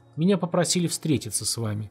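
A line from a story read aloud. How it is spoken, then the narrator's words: Calm. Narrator (Russian): спокойно сказал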